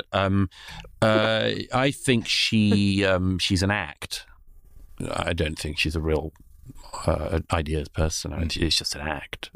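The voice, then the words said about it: Smooth, soothing British accent. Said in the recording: “Sounds so much better with a British accent. ... It's like ASMR, isn't it? I'm like, so smooth, soothing”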